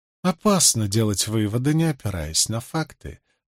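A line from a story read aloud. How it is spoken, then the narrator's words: Unruffled, composed. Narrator (Russian): заметила Морейн невозмутимым тоном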